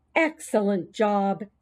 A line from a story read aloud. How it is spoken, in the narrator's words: said Mrs